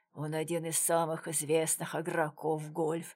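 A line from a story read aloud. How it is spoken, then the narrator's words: Mumbling. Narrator (Russian): пробормотал незнакомец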